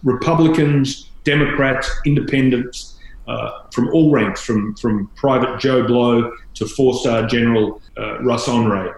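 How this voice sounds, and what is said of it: Non-American accent. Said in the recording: “people listening to this, maybe even more than seeing you on TV, can tell that you don't have an American accent.”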